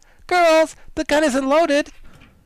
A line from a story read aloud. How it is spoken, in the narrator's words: she cried